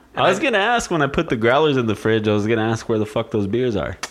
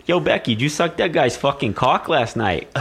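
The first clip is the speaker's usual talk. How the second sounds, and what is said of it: Exaggerated put-on Boston accent. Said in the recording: “Did they get offended at my accent? ... She's a fucking Boston chick.”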